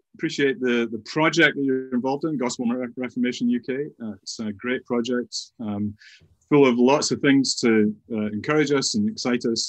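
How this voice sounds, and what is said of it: Softened Scottish accent. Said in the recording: “is that a Welsh accent I detect there? ... It is a Scottish accent. ... Modified after having been in England now for just over 30 years. So I've slowed down quite a bit and softened the vowels somewhat”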